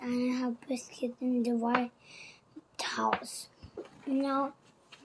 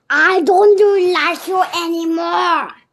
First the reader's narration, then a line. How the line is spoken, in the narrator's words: Anna Hibiscus shouted